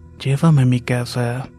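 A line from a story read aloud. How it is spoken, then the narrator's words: Dry cold voice. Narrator (Spanish): con una voz seca y fría le dijo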